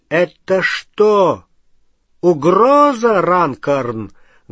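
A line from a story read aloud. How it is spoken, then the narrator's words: Loud question. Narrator (Russian): громко осведомился мистер Уизли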